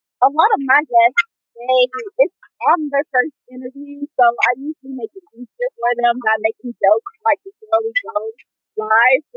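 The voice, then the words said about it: Thick country accent. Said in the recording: “I have a really country thick accent ... it's really country”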